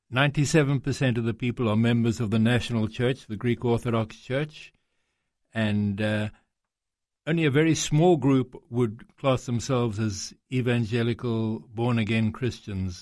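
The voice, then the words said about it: South African-sounding accent. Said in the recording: “your accent doesn't sound Greek. In fact, it's got a sort of a South African feel about it”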